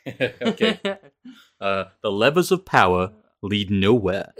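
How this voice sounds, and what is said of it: Deep, low-pitched radio voice. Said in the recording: “I can like drop an octave lower... I go into my radio voice here”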